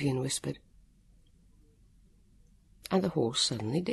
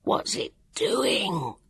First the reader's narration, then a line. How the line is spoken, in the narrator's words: Jonathan gasped